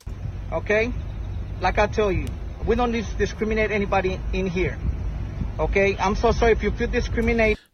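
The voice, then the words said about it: Accented English speech. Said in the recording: “the guy with the accent ... Hispanic manager”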